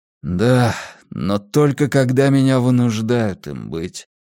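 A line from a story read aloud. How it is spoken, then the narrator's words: Sad. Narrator (Russian): грустно произнес он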